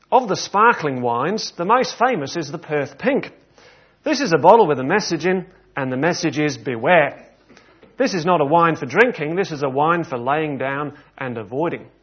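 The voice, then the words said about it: Attempted Australian accent. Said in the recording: “apologies to any Australians here ... Apologies for the accent attempt”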